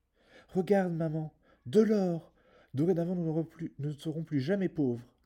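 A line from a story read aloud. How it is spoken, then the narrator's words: Exclaimed. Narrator (French): s'écria Jack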